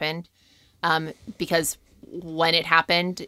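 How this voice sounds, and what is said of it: Usual voice. Nothing is said of it.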